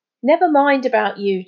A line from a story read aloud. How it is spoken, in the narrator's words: Charlie burst out impatiently